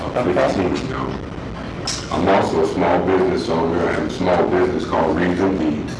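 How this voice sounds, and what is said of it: Deep voice. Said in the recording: “deep voice”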